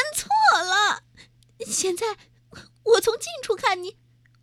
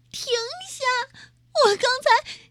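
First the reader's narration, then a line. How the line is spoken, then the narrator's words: Crying. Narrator (Chinese): 马若丽……她哭着说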